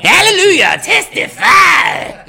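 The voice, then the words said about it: Terrible impression of a singer. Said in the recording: “that was a terrible James Brown impersonation”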